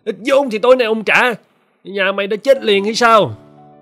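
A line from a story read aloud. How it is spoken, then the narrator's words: Shout. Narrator (Vietnamese): Hắn quát lên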